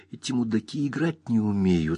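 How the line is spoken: Convincing whisper. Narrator (Russian): сказал он убедительным шепотом

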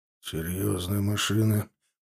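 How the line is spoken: Chief of staff's grumble. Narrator (Russian): проворчал начальник штаба

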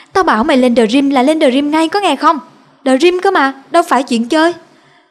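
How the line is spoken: Shout. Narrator (Vietnamese): Cậu ấy quát

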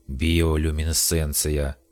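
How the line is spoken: Hoarse, sickly voice. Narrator (Russian): объяснил Ариман хриплым, больным голосом

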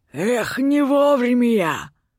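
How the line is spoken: Man smirking through teeth. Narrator (Russian): Усмехнулся сквозь зубы мужчина

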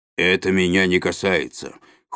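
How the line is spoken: Cold. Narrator (Russian): холодно сказал дядя Валя

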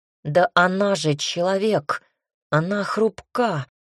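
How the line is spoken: Growling. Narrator (Russian): рычал он

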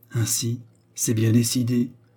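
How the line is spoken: Timid sigh. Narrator (French): soupira-t-elle d'une voix timide

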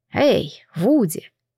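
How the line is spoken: Affectionate calling voice. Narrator (Russian): ласковым голосом окликнул Алан

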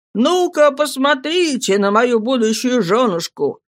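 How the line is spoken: Crying and laughing, shy. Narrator (Russian): она, моя голубушка, и смелая, и застенчивая, и плача, и смеясь, в одно и то же время говорит

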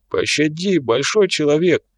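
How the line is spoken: Whimpering plea. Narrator (Russian): заскулил упавший

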